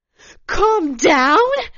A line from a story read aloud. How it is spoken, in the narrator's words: Svetlana was almost screaming